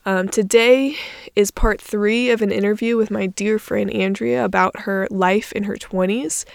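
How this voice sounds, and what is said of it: Stuffy, congested voice. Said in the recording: “I sound a little different. I have a cold ... still don't sound a lot better yet ... my stuffy sounding voice”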